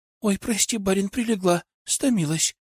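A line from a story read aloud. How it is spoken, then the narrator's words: Guilty voice. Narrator (Russian): виноватым голосом проговорила Анна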